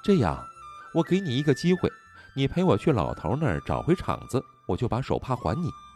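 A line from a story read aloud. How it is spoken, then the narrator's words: Smiling. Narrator (Chinese): 小姑娘……眉眼含笑道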